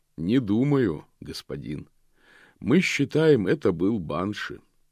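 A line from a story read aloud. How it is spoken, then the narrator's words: Calm. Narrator (Russian): спокойно отвечал капитан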